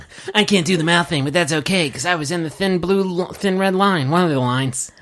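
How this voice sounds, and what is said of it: Imitates another person's voice. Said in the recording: “a really good Jack Nicholson impression”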